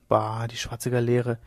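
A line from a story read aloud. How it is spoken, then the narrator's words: Murmured. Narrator (German): murmelte Leone de la Rota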